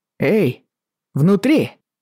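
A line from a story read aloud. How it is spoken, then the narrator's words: Shout. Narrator (Russian): крикнул Джейми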